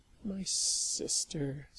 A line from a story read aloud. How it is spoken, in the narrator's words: Sally muttered miserably